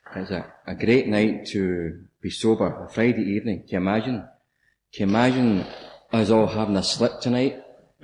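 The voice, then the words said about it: Glaswegian Scottish accent. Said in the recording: “I'm from Glasgow. And I hope you can understand the accent.”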